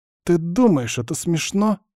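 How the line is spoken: Plain. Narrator (Russian): спросил Володька

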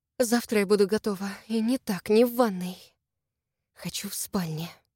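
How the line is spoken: Quick whisper. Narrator (Russian): быстро прошептала

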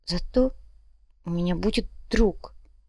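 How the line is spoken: Quiet child. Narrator (Russian): тихо произнес ребенок

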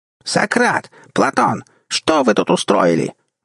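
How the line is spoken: Falsetto yell. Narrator (Russian): завопил фальцетом

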